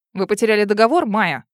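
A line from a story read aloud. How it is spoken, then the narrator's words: Emotional indignant blurt. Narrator (Russian): не сдержав эмоции, выпалила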